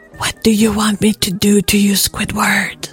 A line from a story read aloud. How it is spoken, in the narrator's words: he asked with a purr to his voice